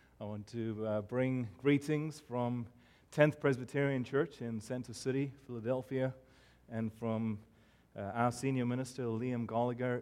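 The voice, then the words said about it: South African accent. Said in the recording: “where my accent is from ... I was born and raised in Cape Town, South Africa, and I have heard everything that my accent is from England, it's from Ireland, it's from Australia, it's from New Zealand”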